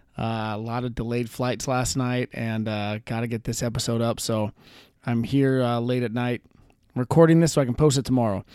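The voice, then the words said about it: Tired-sounding voice. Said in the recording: “If I sound tired, that's because I am.”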